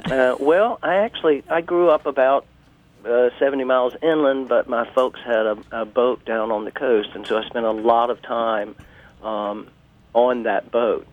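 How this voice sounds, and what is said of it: Georgia Southern US accent. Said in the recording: “Your accent does tell. ... my accent is Georgia.”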